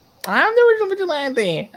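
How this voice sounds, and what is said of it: Imitates another person's voice. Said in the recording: “Spot on Stephen Amell ... that was a good impression of Stephen Amell”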